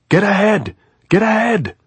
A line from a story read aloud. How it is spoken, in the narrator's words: the man shouted